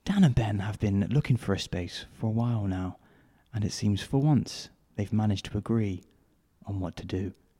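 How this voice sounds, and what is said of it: Slow, softly spoken narrator voice. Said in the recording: “He's quite softly spoken, isn't he? ... it's slower ... With a slight Attenborough twist”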